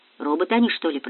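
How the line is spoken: Muttering. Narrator (Russian): пробормотал кто-то

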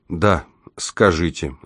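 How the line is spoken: Unenthusiastic sigh. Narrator (Russian): вздохнул он, не проникнувшись энтузиазмом ни на йоту

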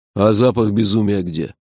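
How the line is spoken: Stern question. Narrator (Russian): строго спросил Джуфин

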